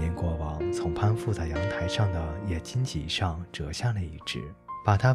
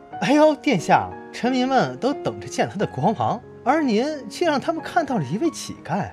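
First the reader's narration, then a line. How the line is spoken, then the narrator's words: Mocking shouts. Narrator (Chinese): 显贵们觉得很可笑，他们中有些人还对他叫道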